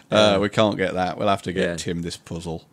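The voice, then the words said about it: Put-on northern English accent. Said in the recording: “You're gradually leaning into an accent... you might go a bit northern... you say puzzle quite convincingly as a northern”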